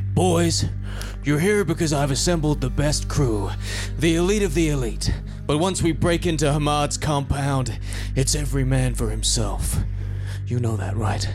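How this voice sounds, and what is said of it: Macho put-on American accent. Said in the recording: “Very American, very macho ... You can do an American accent ... You're like a Vin Diesel type”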